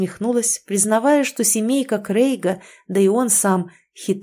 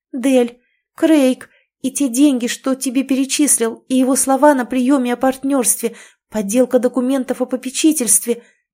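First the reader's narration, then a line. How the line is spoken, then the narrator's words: Agitated exclamation, female friend. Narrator (Russian): Взволнованно воскликнула подруга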